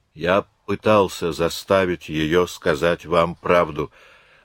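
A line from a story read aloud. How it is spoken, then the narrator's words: Calm. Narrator (Russian): начал он спокойно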